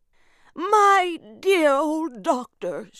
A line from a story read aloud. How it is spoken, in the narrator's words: she cried